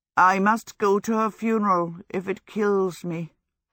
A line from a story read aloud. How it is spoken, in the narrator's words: Hal said sadly